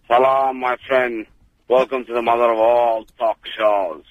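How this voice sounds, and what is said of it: Impression of George Galloway. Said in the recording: “It's George Galloway's. ... That's not a bad impression. Or maybe it's the real George.”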